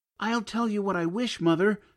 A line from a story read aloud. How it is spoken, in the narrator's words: cried he